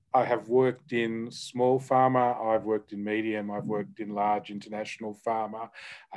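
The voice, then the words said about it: Australian accent. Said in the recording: “I am Australian, which hopefully people can tell from my accent”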